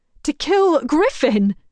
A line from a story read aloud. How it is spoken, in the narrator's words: Jess cries out